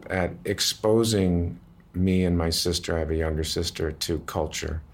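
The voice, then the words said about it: Emotional, slightly choked-up voice. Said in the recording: “I'm getting a little choked up”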